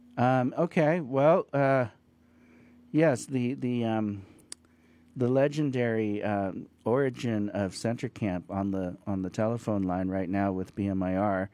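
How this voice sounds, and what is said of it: Slightly hoarse voice. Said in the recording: “my voice is a little hoarse now”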